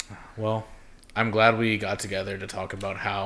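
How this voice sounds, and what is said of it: Usual voice. Nothing is said of it.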